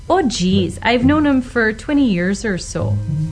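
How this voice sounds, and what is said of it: Stereotypical Minnesota accent. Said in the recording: “general Minnesota accent ... go straight for the stereotype ... a lot of lip corner tension, and there's not a lot of jaw movement ... a little bit of a smile there ... the Minnesota friendly accent”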